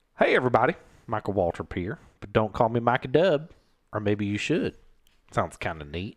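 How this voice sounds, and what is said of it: Deliberately bad impression of another person. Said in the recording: “I do a stupid impression of Michael Waltrip. I don't need you to tell me that's a bad impression.”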